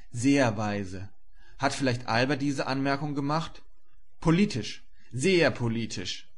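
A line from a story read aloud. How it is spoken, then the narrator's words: Calling out. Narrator (German): rief er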